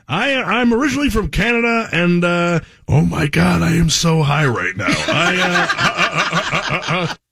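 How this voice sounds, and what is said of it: Seth Rogen impression. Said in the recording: “remember when Jonathan Kite did the Seth Rogen? ... Man, that was good.”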